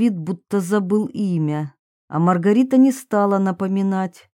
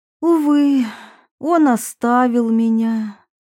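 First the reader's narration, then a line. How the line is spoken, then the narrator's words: Sincere sorrowful sigh. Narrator (Russian): она вздохнула непритворно, поскольку вполне искренне горевала о том, что жизнь была так жестока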